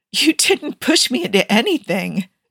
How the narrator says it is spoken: Joe laughed

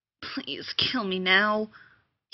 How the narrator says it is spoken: he muttered

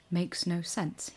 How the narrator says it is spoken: he muttered, his breath coming in white puffs

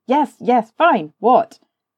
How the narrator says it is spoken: Rodney suddenly said, irritably

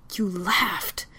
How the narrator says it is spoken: she hisses, hating how irrational and stupidly emotional she sounds

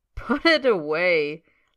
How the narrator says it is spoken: laughs Bill Weasley

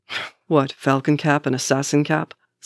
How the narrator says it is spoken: says Bucky with a harsh snort

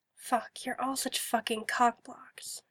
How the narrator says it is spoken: she mutters under her breath

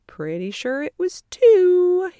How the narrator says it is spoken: he sing-songs, eyebrows arched playfully

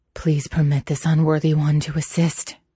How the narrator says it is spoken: he panted

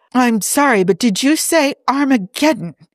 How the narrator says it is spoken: He blurted out

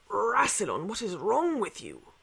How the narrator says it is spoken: said voice raspy from sleep

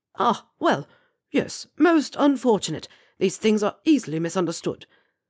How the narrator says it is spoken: Slughorn spluttered

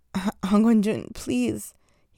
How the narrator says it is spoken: he gasped

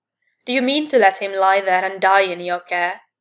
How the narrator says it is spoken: roared

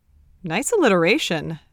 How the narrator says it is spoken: Nate said automatically

